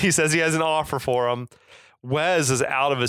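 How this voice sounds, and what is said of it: Usual voice. Nothing is said of it.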